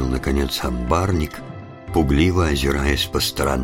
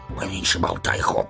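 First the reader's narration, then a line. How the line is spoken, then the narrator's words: Hissing, several guards. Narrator (Russian): зашипели на него другие стражники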